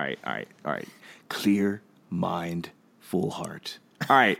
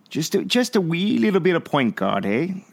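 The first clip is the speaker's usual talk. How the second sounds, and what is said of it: Bad put-on Irish accent. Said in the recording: “That's my awful Irish accent. ... That was pretty bad, actually.”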